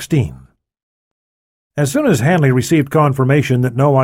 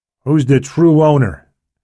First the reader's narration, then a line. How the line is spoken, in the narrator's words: Hanley asked